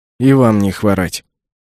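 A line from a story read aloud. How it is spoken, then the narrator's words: Grumbled. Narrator (Russian): буркнул я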